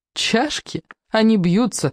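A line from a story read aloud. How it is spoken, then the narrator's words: Laughing between sips. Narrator (Russian): засмеялась Элиза между двумя глотками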